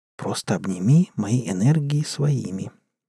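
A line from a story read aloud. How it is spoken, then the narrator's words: Quiet reply. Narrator (Russian): тихо сказала она в ответ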